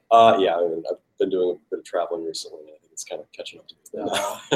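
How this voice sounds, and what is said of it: Deteriorated, sick-sounding voice. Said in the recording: “Sorry about my voice. ... My voice has kind of deteriorated since then. ... Are you getting sick?”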